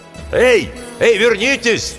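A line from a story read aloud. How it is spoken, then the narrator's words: Shout. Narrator (Russian): Митчелл закричал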